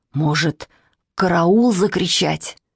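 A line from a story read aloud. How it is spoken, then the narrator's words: Hoarse whisper. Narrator (Russian): сказал он охрипшим шепотом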